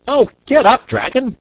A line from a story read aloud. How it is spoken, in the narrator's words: cried the boy piteously